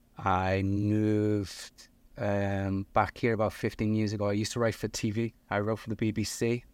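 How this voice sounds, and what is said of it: Liverpool English accent. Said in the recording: “You might hear that I got an accent. I'm originally from Liverpool in the north of England.”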